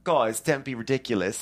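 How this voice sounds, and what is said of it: Imitates another person's voice. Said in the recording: “We're going to need a Dorit impersonation too”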